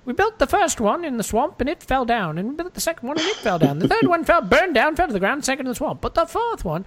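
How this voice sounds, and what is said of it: Imitated Monty Python character accent. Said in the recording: “The Monty Python skit ... sorry for the accent.”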